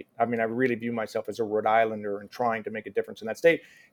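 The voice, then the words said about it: American accent. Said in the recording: “especially with my American accent, no one will ever look at me and say that I'm from Suffolk”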